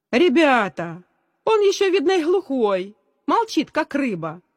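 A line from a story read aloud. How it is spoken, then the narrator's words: Cheerful shout. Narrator (Russian): весело крикнул Давид, один из лидеров класса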